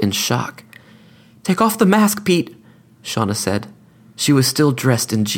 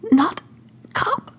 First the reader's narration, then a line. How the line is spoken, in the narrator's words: she gasped